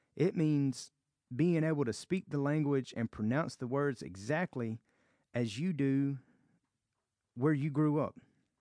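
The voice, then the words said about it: Southern American accent. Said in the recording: “I am from America, and I have a southern accent.”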